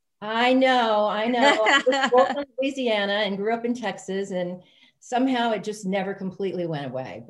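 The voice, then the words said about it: Southern US accent. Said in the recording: “that Southern accent”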